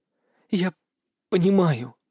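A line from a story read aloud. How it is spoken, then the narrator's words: Muffled, dull. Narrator (Russian): глухо произнесла она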